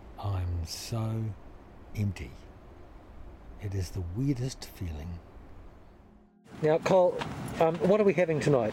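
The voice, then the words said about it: Weak, drained, barely able to speak. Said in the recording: “As you can tell by my voice, I'm almost totally inert. I can hardly speak.”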